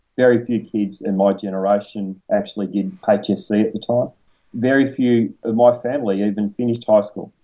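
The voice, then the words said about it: Northern Victorian Australian accent. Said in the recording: “I come from Northern Victoria. You can probably tell from the accent.”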